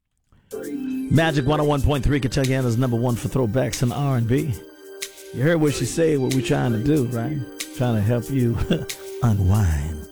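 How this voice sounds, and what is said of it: Deliberately deep low voice. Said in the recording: “I like this deep voice. ... I might get lucky with this voice.”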